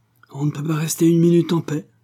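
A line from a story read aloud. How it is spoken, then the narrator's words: Young man's exclamation. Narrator (French): s'écria un jeune garde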